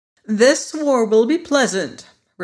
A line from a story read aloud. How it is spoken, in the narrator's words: replied the girl cheerfully